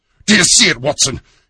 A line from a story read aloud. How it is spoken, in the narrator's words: he yelled